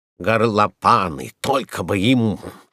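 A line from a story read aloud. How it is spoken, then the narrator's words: Angry. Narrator (Russian): сердито сказал парикмахер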